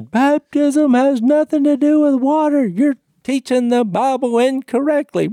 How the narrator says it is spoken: the fella who hollered at me when he said

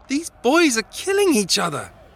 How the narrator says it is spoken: she screamed

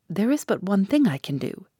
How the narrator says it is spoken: said he

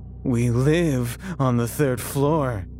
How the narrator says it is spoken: he said mockingly

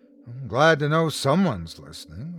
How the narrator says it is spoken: Rebecca said

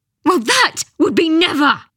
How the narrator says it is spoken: screamed

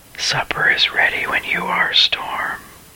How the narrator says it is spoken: I moved closer to him and whispered

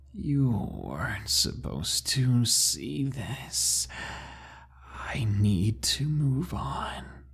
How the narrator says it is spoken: He spoke in a deep, raspy voice now that changed pitch as he talked, almost like it was going through rapid changes, and he said

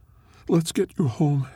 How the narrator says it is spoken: she said, her voice breaking

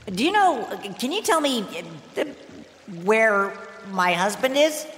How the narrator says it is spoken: she asked nervously

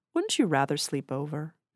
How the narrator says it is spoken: she asked kindly

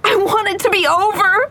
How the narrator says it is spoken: pleaded, sobbing

